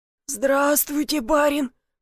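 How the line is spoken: Hoarse rasp. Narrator (Russian): прохрипел он

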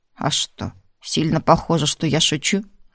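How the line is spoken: Grim question. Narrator (Russian): Мрачно осведомился коллектор

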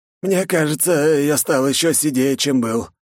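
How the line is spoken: Weary exhale. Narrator (Russian): выдохнул Лу

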